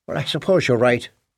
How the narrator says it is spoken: Jesse said with a small sigh

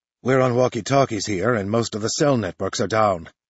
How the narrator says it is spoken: Noto mutters

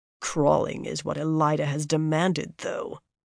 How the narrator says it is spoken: Morvryn muttered acridly

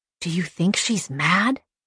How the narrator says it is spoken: I whispered to the old man

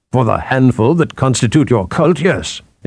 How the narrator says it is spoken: Athor snapped

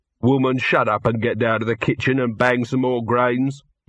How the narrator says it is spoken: he shouted

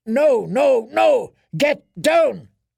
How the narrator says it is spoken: His answered roar was full of fear and fury, full of pain

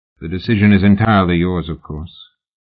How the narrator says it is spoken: Oliphant said coolly

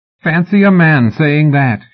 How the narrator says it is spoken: she said, and laughed

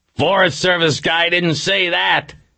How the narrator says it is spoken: McGrath yelled back

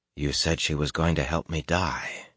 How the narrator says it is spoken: he said quietly

